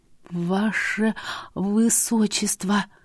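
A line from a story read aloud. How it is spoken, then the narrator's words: Barely audible babbling. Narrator (Russian): еле слышно пролепетала я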